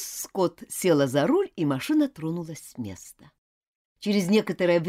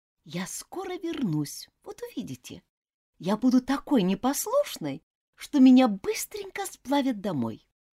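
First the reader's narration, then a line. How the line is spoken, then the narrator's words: Whispered vow. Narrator (Russian): шепотом поклявшись каждому из них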